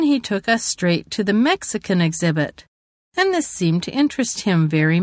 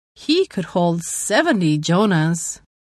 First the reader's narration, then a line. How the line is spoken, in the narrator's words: The master laughed, and said